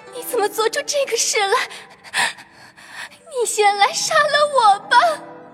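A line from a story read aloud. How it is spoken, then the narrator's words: Terrified crying. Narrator (Chinese): 黛玉吓得魂飞魄散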